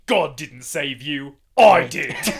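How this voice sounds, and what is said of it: Put-on accent sounding Australian. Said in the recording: “That sounded Australian. He sounds more English than that. I'm not good at accent work.”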